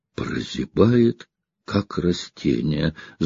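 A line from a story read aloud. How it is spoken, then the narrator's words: Thoughtful repetition. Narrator (Russian): задумчиво повторила Анна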